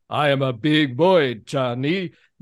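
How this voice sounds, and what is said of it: Imitating Tor Johnson's accented English. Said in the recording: “how bad his English is... Tor Johnson, was he Hungarian?... a name that matches the accent... It says he's Swedish.”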